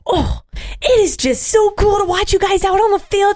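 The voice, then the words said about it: Imitated Rhode Island accent. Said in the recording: “She has this wicked Rhode Island accent ... your impression of your mom ... That was a great ... accent.”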